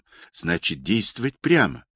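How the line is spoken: Whispered question. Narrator (Russian): Жорка Волков спросил у меня шепотом

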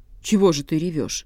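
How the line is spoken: Cold question. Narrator (Russian): холодно спрашивает котика

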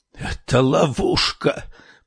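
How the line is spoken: Hoarse rasp. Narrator (Russian): прохрипела Сабрина

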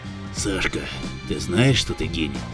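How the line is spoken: Hoarse whisper. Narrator (Russian): хриплым шепотом спросил Корнеев

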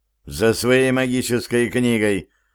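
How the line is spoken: Angry mutter. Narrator (Russian): сердито буркнул Стив

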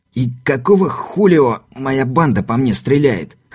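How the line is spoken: Hoarse. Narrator (Russian): хрипло спросил скаут

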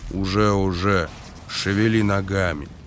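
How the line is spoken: Gruff mutter. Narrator (Russian): Эйс буркнул

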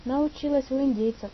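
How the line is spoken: Cheerful. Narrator (Russian): весело проговорила она

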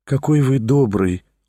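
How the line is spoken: Gentle female voice. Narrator (Russian): ласково проговорила Лиза

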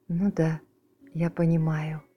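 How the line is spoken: Very gentle reply. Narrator (Russian): очень ласково ответила тетя Полли

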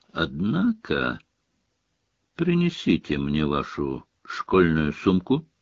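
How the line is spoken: Calm demand. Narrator (Russian): спокойно потребовал Снег

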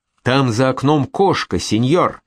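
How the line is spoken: Exclaimed, apprentice. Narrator (Russian): воскликнул подмастерье

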